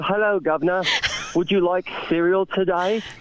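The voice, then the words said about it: Put-on British accent. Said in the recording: “I just want a good British accent. I think everybody should have a good British accent.”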